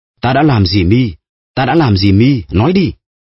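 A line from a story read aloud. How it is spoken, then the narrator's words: Frantic dazed shouting. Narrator (Vietnamese): Villefort đang ở trong trạng thái thần kinh hỗn loạn và hét lên như người mơ ngủ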